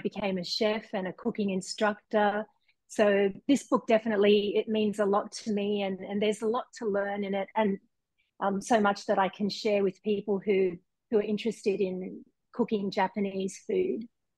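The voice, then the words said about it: Australian accent. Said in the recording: “love your beautiful accent ... I'm originally from Sydney, Australia”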